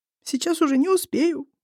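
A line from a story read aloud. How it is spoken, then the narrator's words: Sobbing. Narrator (Russian): всхлипывает она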